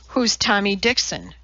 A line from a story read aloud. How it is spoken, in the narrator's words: She asked sharply